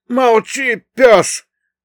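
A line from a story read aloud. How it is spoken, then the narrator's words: Yelling. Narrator (Russian): тут же заорал третий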